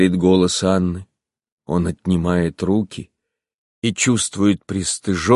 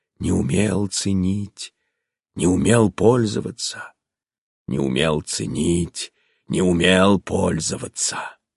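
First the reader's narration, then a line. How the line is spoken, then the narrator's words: Strange crazed repeated whisper. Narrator (Russian): странным, сумасшедшим шепотом повторяемые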